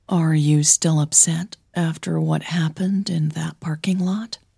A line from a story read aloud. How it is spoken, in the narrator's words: Hannah asked softly